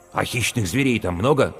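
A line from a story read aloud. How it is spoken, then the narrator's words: Plain. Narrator (Russian): спросил Мал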